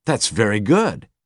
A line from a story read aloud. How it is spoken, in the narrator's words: the manager exclaimed